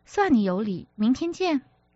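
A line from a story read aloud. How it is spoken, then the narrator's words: Giggling. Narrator (Chinese): 苏小姐咯咯笑道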